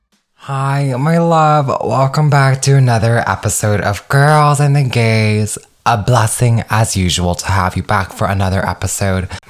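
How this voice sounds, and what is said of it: Hoarse, strained voice. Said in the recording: “I don't know if you can hear from my voice, but I am freaking shot, as in the sense of my throat is unwell. I was screaming all weekend”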